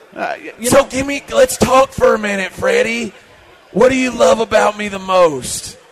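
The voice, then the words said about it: Impression of John McClain. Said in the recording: “It's a pretty good impression”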